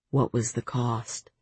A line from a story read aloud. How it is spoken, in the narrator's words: Rhysand said softly